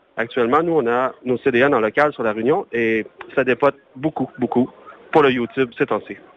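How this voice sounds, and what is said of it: Québécois French accent. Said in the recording (French): “Un bel accent votre invité là ... c'est québécois, parce que je sais que c'est bien québécois ... l'accent ne se perd pas”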